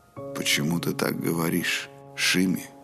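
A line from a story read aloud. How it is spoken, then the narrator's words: Gentle. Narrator (Russian): Все так же мягко спросил Роланд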